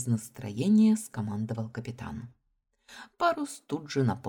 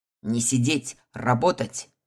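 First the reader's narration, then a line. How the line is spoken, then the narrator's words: Captain's barked order. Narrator (Russian): гаркнул на меня капитан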